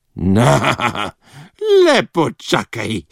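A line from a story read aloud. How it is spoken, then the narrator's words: Hiss. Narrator (Slovenian): je zasikala Babuza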